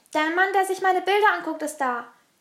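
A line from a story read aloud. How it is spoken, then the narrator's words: Excited shout. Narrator (German): schrie Mama aufgeregt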